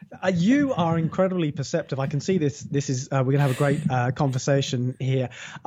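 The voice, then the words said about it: Non-American accent. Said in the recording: “you do not have an American accent”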